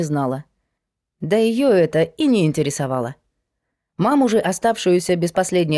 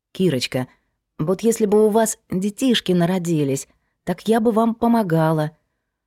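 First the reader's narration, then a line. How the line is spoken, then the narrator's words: Timid speech. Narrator (Russian): робко говорила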